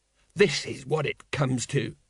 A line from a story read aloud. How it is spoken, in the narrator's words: muttered Colon